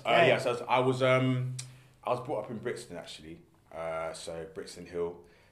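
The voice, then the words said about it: South London accent. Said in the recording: “as you can tell by my accent ... I was born in London, South London.”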